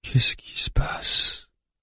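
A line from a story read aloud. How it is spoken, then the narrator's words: Murmured. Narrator (French): murmure-t-elle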